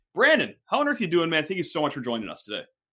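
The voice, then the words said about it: Excited, upbeat voice. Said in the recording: “you could tell in my voice, I'm fired up. I'm in a great mood.”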